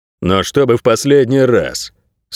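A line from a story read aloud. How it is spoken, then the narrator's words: Stern, big man. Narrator (Russian): строго сказал здоровяк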